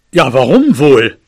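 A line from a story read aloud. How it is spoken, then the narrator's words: Growled back. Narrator (German): knurrte mein Vater zurück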